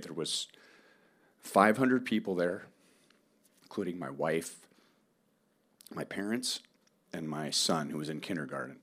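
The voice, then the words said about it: Emotional voice. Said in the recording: “if I'm getting emotional now”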